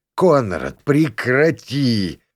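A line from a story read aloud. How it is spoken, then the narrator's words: Pained exhale. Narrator (Russian): выдохнул бармен мучительно морщась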